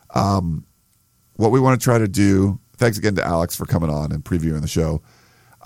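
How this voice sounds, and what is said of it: Hoarse, failing voice. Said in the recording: “as you can hear, my voice is is pretty much dying.”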